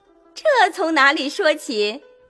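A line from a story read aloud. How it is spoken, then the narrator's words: Puzzled awkward laugh. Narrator (Chinese): 黛玉也摸不着头脑，也跟着讪讪的笑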